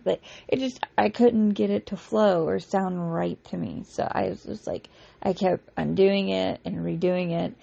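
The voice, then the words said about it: Scraggly, worn-out voice. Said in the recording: “my voice is a little scraggly right now”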